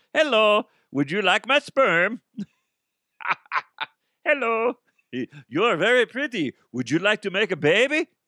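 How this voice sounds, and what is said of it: Put-on Dutch accent. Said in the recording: “I am a Dutch man ... I don't know what Dutch people sound like ... Identical to their accent.”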